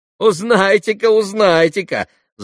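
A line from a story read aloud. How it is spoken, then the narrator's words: Boys laughing. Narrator (Russian): засмеялись мальчики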